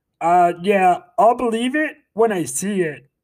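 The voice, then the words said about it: Imitates another person's voice. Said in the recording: “my best Mahomes impression”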